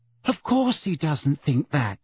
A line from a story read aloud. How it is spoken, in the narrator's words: said Hermione anxiously